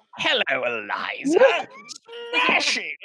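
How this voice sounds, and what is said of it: Nigel Thornberry cartoon character voice. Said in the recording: “my Nigel Thornberry impression? ... Actually really good. ... It's too good.”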